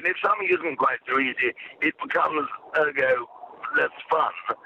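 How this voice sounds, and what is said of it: Old-fashioned English accent. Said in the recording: “I happen to have a sort of old-fashioned accent”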